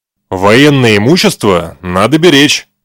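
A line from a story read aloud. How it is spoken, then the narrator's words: Stern sergeant. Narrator (Russian): строго сказал сержант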